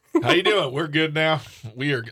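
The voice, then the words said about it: Put-on Southern US accent. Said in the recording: “I don't know why I sound like a southern person, but it just sounded right in my head.”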